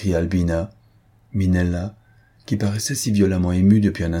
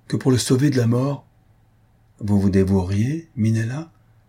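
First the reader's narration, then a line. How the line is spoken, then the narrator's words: Moved, lowered voice. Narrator (French): dit d'une voix émue et en baissant la tête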